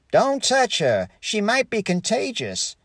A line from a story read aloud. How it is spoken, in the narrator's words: yelled baby Ethel's mother